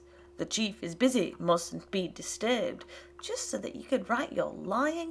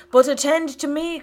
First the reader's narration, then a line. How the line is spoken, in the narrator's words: cried his father